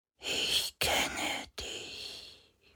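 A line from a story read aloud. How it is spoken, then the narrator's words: Barely audible inner whisper. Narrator (German): flüsterte eine Stimme durch seinen Verstand, so leise, dass er sich nicht sicher war, ob er sie wirklich vernommen hatte oder nicht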